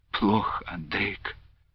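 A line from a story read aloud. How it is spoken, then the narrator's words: Quiet monotone weeping. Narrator (Russian): тихо заплакала Любаша на какой-то одной тоскливой ноте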